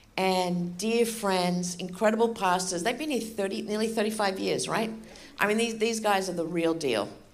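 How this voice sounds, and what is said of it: Australian accent. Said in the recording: “I have an Australian accent. I was born and raised in Australia.”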